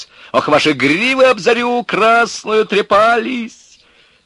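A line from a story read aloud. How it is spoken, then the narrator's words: Shouting from a height. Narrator (Russian): он кричал с вышки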